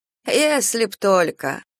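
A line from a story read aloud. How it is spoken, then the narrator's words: Sighing. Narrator (Russian): вздохнул Ильин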